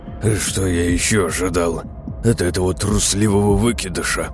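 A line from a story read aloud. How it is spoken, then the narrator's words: Growled. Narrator (Russian): прорычал Крамос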